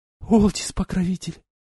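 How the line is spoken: Breathless exclamation. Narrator (Russian): Выдохнула Айлани

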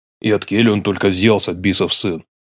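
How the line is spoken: Strained grumble. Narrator (Russian): пробурчал с натугой, отломив ногу прожаренного гуся старший Башкиров

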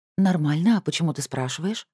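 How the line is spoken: Plain. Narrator (Russian): ответила Шимхет

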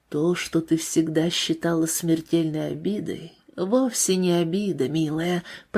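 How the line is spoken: Whisper. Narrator (Russian): прошептала она

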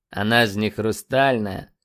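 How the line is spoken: Drawling. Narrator (Russian): протянул Рыжий

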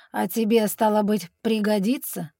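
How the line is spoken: Snort. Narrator (Russian): хмыкнул Аббаден

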